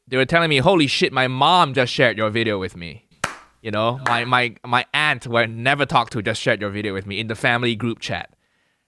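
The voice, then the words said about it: Accent hard for Asians to follow. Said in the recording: “the accent actually makes me more accessible to Asian people, to Asians in Asia ... I sound like this, and to an Asian person who grew up in Asia, like, this is not very decipherable. You need subtitles.”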